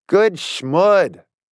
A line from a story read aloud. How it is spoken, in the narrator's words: I said loudly